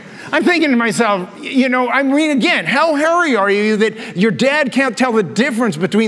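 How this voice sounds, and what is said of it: Usual voice. Nothing is said of it.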